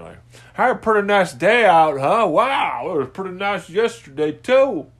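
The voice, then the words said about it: Midwestern hick voice. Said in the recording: “Just some fucking doe-eyed Midwestern hick with some fucking straw in my ear”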